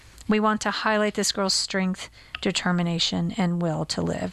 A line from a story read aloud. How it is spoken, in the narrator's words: Nunez said